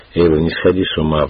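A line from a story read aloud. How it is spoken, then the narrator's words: Pleading healer. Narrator (Russian): взмолилась целительница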